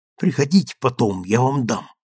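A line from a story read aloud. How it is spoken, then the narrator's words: Whispered. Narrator (Russian): шепнул Джимми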